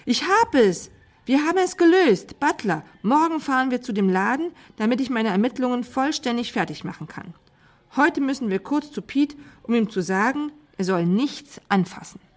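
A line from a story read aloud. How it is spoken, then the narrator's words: Shouting. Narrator (German): schrie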